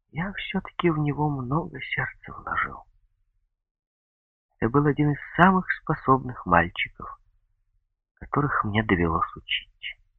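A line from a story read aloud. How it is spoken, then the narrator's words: Timid addition. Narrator (Russian): как-то робко добавил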